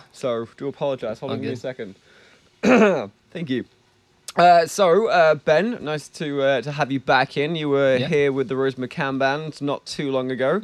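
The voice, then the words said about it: Hoarse, froggy voice. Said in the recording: “I've got a bit of a frog in my throat”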